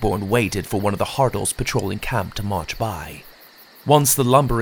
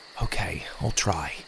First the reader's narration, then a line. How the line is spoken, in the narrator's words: I whispered